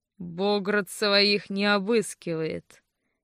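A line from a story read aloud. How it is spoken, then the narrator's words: Amused snort. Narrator (Russian): хмыкнул Франц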